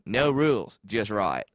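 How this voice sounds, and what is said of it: Put-on Australian accent, commercial voice. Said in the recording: “I get all those commercial voices down. The only reason why I know how to do an Australian accent is because I do the damn Outback voice.”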